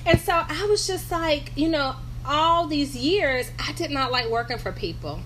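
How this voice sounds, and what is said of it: North Carolina accent. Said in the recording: “I'm from North Carolina, in case you hear my accent.”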